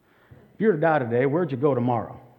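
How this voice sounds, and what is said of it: Put-on Texas accent. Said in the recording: “I use my Texas accent”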